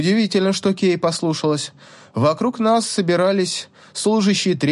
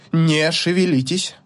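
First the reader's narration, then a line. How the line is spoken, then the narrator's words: Imperious command. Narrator (Russian): приказал Зерек таким властным тоном, которому позавидовал бы и дракон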